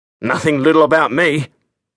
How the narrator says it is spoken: he grunted

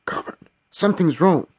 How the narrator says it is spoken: whispered the PRU

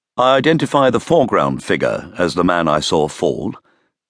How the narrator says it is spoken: he said

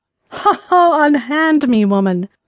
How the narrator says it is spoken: laughed in his customary spirited way

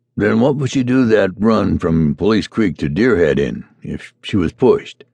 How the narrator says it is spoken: the stranger asked

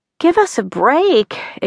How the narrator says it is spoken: exclaimed Connie

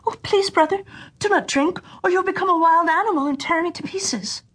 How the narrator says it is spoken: the sister cried out

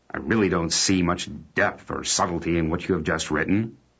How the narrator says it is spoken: remarked the man rather irritably

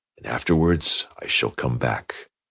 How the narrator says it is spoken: he whispered

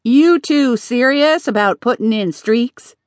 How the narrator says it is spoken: Sally asked

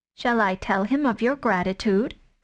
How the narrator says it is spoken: said Tabaki

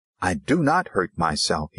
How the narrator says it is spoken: he cried harshly

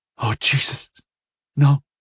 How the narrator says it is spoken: she whispered to herself, and the tiniest modulation of her voice was audible

